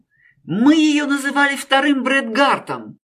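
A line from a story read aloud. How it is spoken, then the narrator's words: Exclaiming. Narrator (Russian): воскликнул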